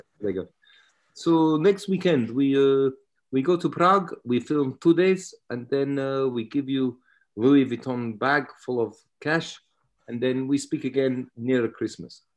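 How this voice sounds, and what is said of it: Put-on Russian accent. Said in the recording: “I'm doing a Russian accent ... It's just a better story if they have a Russian accent.”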